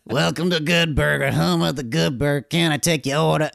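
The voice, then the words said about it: Exaggerated funny character voice. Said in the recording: “He's just like, do a funny voice.”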